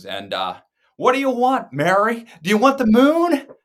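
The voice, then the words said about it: Jimmy Stewart impression. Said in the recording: “I could even do a Jimmy Stewart impersonation.”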